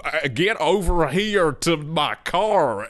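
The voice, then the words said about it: Bad put-on American accent. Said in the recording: “English people do American accents, it's so distracting ... this is not like Hugh Laurie house tier ... This is like community theater public production of Streetcar Named Desire ... a guy from Northampton who's like”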